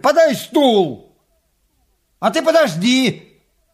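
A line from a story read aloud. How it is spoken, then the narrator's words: Shouted. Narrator (Russian): Крикнул он бабе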